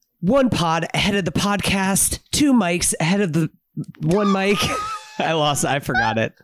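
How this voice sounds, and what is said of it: Hoarse voice. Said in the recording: “My voice is a little bit hoarse ... your voice is so hoarse ... the hoarse voice”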